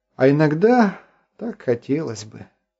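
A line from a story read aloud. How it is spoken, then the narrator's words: Sighed. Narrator (Russian): вздохнул Артур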